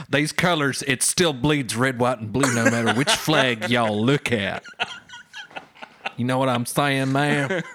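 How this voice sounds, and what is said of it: Half Australian accent, American R. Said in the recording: “I might have a weird half Australian with American R accent”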